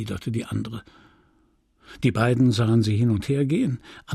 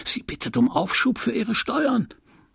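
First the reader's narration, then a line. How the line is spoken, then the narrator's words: Old woman hissing very softly. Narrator (German): die alte Tüvache zischte ganz leise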